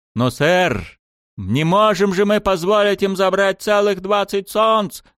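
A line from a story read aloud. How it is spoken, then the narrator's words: Shouting over radio. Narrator (Russian): закричал по рации один из капитанов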